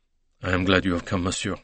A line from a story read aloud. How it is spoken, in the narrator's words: said the conductor with a sigh of relief